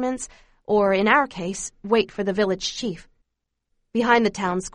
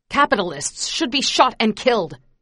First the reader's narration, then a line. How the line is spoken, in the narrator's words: yells from the crowd